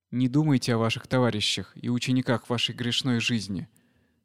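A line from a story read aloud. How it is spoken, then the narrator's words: Plain. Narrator (Russian): сказал Пантака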